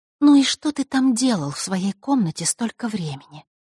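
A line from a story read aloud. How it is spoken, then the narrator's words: Even, level voice. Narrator (Russian): ровным голосом спросила она, решив сменить тактику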